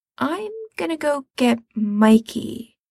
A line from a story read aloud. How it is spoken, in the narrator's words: he says slowly